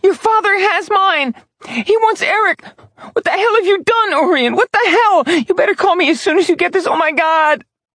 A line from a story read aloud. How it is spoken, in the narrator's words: Phoebe's hysterical screaming